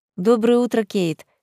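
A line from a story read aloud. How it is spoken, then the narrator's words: Plain. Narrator (Russian): сказала Марселла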